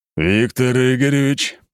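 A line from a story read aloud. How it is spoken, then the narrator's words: Steely tone. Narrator (Russian): стальным тоном проговорил глава рода Быковых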